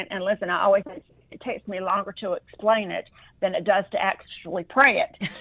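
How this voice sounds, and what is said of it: Southern American accent. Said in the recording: “you have that beautiful Southern accent.”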